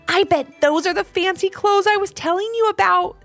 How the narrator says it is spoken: said Ivy excitedly

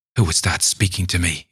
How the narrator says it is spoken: he cried

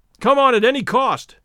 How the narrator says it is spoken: shouted Stoddard

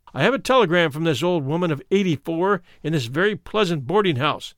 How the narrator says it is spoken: said he

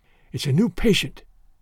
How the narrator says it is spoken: he whispered

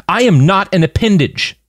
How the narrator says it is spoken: Sasha shouted, surprised at her own anger

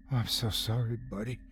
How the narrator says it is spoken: I said quietly, trying to ease his fear

